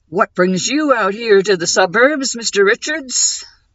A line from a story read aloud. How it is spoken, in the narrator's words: Bill's voice boomed in false conviviality